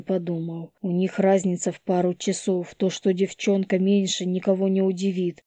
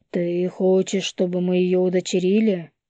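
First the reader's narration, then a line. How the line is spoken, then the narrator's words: Muffled, flat question. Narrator (Russian): глухо спросил Ян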